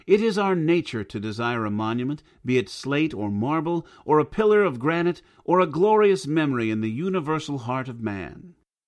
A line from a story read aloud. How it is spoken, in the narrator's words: exclaimed the stranger